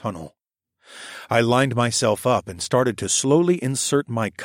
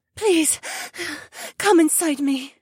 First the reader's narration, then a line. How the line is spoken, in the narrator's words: Becca gasped